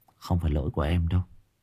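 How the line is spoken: Soft. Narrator (Vietnamese): Chị Đan khẽ nói

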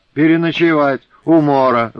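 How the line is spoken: Loud laughter. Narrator (Russian): захохотала в избе Груня

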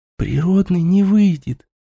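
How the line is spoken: Whispering. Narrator (Russian): прошептала ей Еремеева

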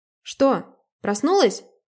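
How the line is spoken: Loud. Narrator (Russian): сказала она громко

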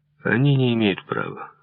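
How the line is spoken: Cold. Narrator (Russian): холодно произнес я

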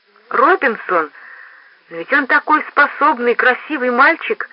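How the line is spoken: Babbled. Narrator (Russian): залепетала мисс Вендикс

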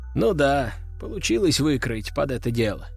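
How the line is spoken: Sigh. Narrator (Russian): вздохнул Глеб

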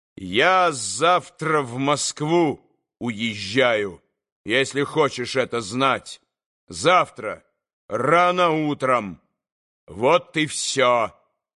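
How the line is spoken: Angry, loud, deliberate. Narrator (Russian): Злобою, раздельно и громко вдруг проговорил он

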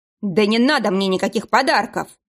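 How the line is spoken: Still irritated. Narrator (Russian): произнес шеф все еще раздраженным тоном

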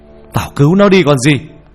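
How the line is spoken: Alarmed shout. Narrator (Vietnamese): Nhận ra điều chẳng lành, ông thầy hét lên

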